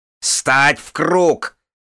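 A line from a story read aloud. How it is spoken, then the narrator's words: Barked. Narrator (Russian): рявкнула она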